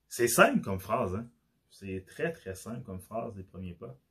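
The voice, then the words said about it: Québécois French accent. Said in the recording (French): “j'ai l'accent québécois ... mon accent était difficile à à comprendre”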